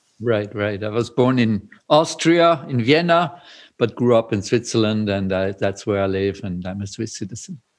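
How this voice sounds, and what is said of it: Austrian-accented English. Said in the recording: “you have an accent, at least my North American friends will hear that you have an accent... originally Austrian”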